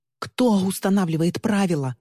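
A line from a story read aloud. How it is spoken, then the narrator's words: Shouted. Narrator (Russian): закричала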